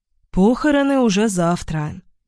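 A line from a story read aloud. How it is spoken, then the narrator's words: Sighing. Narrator (Russian): вздохнула Лариса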